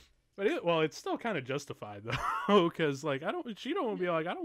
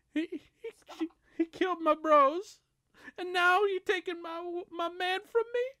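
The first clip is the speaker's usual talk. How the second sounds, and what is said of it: Put-on Black-stereotype voice. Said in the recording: “doing your black voice”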